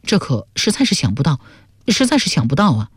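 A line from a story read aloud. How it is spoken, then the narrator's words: Mumbling. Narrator (Chinese): 沈德福喃喃地说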